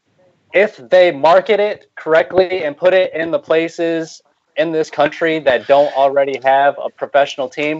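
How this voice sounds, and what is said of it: American accent. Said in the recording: “as I'm sure the people aren't able to tell from my accent, I am an Americano”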